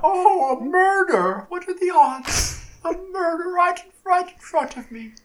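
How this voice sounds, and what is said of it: Imitates another person's voice, badly. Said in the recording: “Can you do an Angela Lansbury impression? ... It's bad, okay. ... So the answer is no.”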